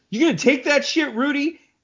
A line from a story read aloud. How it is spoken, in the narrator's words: One of the prisoners shouts